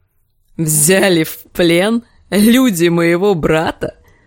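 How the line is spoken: Growling laugh. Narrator (Russian): Клиган рассмеялся, будто зарычал

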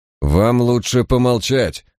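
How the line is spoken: Threatening, through teeth. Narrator (Russian): угрожающе процедил Редвинтер

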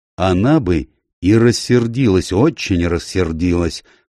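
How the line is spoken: Gloomy. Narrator (Russian): мрачно сказал Баттл

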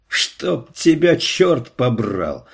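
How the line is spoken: Angry shout. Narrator (Russian): лицо его исказилось от злости, и он крикнул

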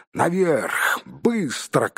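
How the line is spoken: Shouted. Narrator (Russian): крикнул Гэндальф

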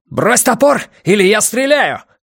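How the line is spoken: Shouted. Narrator (Russian): крикнул Йона

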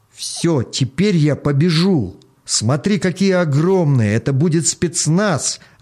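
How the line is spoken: Child's joyful yell. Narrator (Russian): радостно завопил мальчуган

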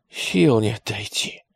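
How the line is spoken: Groaning. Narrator (Russian): стонал атаман

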